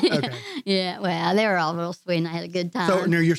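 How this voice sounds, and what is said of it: Texan accent. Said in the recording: “your accent would tell me that you're Texan.”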